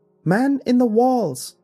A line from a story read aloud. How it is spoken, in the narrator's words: shrieked